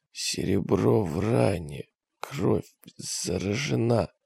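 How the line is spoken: Hoarse rasping. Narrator (Russian): хрипел он

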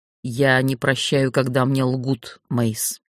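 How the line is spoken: Plain. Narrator (Russian): сказал некромант

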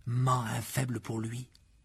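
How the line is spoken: Audible murmur. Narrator (French): dit Fred dans un murmure parfaitement audible pour tout le monde

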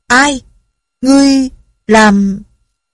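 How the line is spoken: Sudden cry. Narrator (Vietnamese): la lên được một tiếng

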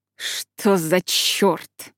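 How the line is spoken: Growl. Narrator (Russian): рыкнул Барт

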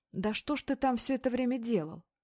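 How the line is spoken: Sharp, nervous, indignant. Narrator (Russian): Беклемишев резко, нервно, возмущенно

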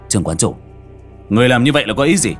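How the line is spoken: Dazed, then loud question. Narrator (Vietnamese): Sau một hồi ngây ngốc, Trương Phong lớn tiếng hỏi

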